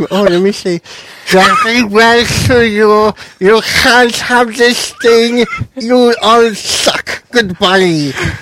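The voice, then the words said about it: Put-on French accent with lisp. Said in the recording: “Can you do her accent? ... I can't do French and lisp at the same time ... That's pretty much how French sounds anyways ... That's her voice now”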